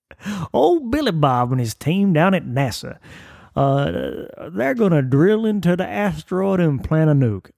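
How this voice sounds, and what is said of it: Exaggerated fake Southern accent. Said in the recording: “I don't know why I have to do a fake Southern accent. I have one. It's just not that cartoonish.”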